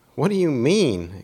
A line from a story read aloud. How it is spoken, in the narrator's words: exclaimed Nicodemus